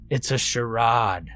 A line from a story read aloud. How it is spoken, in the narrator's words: growled Goose